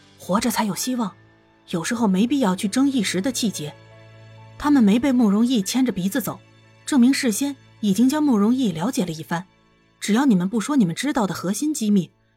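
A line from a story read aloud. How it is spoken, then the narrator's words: Low, brief voice. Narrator (Chinese): 颜灵溪…压低声音，简短说道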